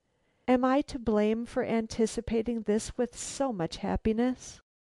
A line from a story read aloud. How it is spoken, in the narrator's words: I sighed